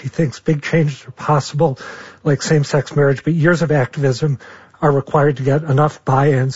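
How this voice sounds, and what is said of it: Hoarse, strained voice. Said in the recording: “I've completely lost my voice.”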